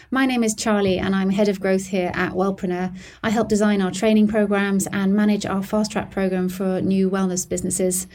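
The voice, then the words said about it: British accent. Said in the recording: “No, Amanda hasn't developed a British accent having lived in the UK for so long.”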